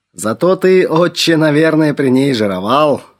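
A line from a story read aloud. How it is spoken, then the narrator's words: Laughing. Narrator (Russian): хохотнул отец Херувим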